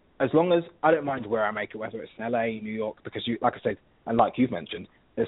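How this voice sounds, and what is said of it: British London accent. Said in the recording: “you can hear I'm British ... you can pretty much hear that I'm from London”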